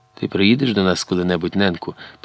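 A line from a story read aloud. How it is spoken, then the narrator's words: Tearful whisper. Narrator (Ukrainian): прошепотіла крізь сльози Златка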